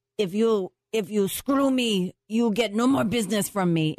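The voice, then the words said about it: Put-on Russian-sounding accent. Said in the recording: “sounds Russian, but that's not even your accent”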